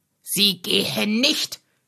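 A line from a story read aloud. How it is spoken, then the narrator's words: Angry snapping. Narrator (German): schnauzte Heiner Strohsack sie an und sprang mit hochrotem Kopf auf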